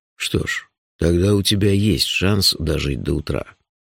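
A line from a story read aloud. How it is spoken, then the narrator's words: Gentle, affectionate promise. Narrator (Russian): ласково пообещал шеф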